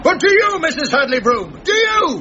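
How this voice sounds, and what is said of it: Shouting. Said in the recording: “keep shouting”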